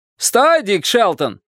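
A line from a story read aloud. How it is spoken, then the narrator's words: Shout. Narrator (Russian): крикнул человек на острове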